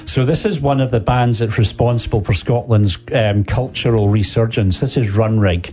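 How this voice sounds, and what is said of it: Scottish accent. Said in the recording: “good to hear a good old Scottish accent.”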